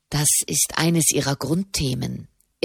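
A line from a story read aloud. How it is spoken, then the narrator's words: Quiet explaining. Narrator (German): erklärte Soderini leise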